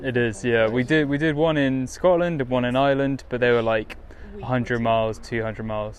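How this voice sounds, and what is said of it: English accent from near London. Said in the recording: “You must be from near London, I'm guessing, for your accent.”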